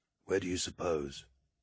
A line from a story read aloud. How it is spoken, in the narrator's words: he began quietly